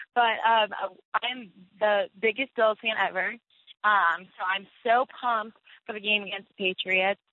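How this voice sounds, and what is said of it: Hoarse, partly lost voice. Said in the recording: “my voice is a little hoarse because this past Sunday, I was screaming as loud as I could at the Bills home opener, so I kind of lost my voice”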